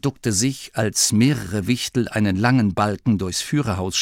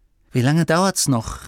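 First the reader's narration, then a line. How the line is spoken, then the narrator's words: Call out. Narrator (German): rief Masklin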